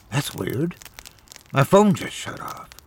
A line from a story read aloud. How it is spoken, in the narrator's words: she mumbled to herself